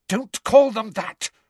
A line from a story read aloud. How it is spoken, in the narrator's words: Hermione said furiously